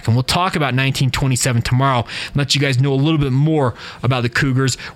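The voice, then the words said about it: Sounds a little slow and off. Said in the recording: “I sound a little weird ... I just sound a little, I don't know, slow is probably not the right term. I just seem a little bit off ... I've just been out of it”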